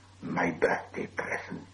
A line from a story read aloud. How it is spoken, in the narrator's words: he whispered to himself